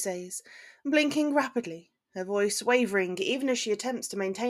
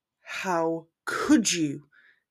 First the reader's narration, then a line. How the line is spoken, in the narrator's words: He asks slowly, his voice nearing a growl